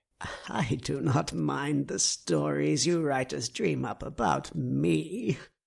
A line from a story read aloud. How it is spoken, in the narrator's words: chuckled